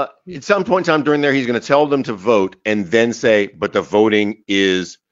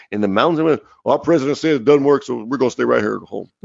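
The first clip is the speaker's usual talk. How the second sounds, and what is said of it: Southern Arkansas accent, like Bill Clinton. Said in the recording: “That was more mixed. That was more of a Bill Clinton accent than anything Georgian. ... That sounded more Arkansas.”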